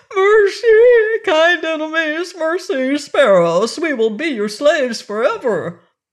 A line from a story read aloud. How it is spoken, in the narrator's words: trembling and frightened, and cried out